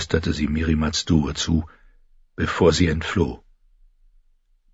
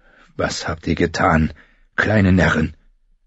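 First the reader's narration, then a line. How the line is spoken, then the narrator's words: Hoarse question. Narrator (German): fragte er heiser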